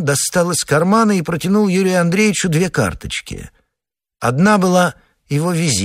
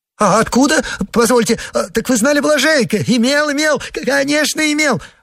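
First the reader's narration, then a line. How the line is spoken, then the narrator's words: Joyful rapid chatter, laughing. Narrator (Russian): радостно затараторил Погоревших, хохоча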